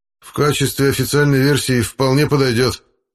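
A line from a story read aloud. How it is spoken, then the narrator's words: Slightly less displeased. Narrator (Russian): чуть менее недовольным тоном ответил Рудковский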